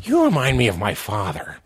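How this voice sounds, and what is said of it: Joker character impression. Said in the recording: “I have to do my Joker impression whenever it comes up.”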